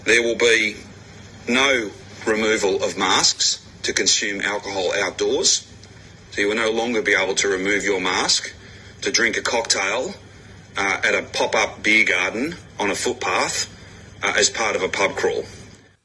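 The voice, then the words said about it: Australian accent. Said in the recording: “audio of an Australian authority ... I think that's my favorite accent in the world.”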